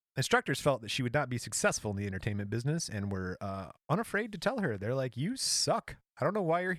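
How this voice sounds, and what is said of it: Usual voice. Nothing is said of it.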